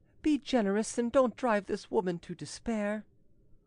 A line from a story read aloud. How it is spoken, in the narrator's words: said the chevalier in a pleading tone